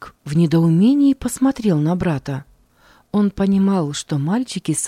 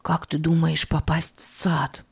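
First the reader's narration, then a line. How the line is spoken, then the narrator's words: Barely audible question. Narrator (Russian): Едва слышно спросил Филипп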